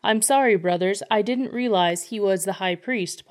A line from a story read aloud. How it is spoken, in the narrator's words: Paul replied